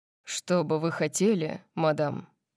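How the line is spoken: Formal butler-like question. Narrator (Russian): спросил он официальным тоном, который чертовски напоминал дворецкого Акруксов

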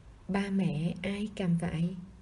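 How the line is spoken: Plain. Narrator (Vietnamese): Hoặc nhiên hỏi

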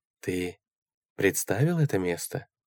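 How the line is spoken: Soft question. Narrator (Russian): мягко спросила мисс Рокси

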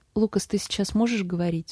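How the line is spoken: Plain. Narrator (Russian): спросила она

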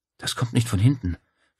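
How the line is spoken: Whispered. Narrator (German): flüsterte Claudia

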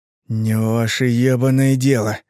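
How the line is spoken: Hateful breathy exhale. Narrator (Russian): выдохнул Артур с ненавистью

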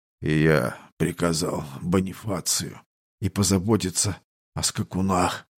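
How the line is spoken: Exhausted wheeze. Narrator (Russian): прохрипел он и обессиленно обмяк

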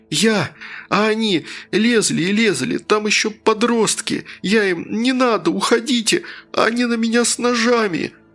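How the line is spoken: Sobbing. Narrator (Russian): произносил Тим сквозь рыдание

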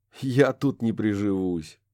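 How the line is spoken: Short laugh. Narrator (Russian): коротко рассмеялся Курт

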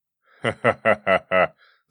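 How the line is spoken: Loud laughter. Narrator (Russian): захохотал дядя Слава

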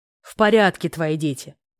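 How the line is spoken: Growled. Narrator (Russian): прорычал Фердинанд

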